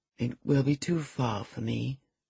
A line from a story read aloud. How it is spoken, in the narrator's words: murmured her cousin